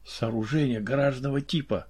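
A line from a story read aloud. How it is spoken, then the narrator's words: Whisper. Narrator (Russian): шепнул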